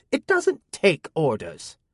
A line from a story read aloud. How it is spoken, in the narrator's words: Amina snapped